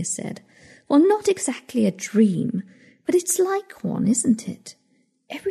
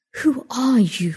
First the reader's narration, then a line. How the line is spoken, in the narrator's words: She sighed